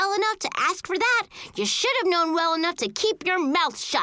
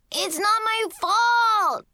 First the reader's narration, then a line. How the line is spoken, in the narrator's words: Kevin shouted again